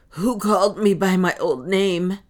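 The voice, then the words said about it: Hoarse, rough voice. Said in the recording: “he said hoarsely”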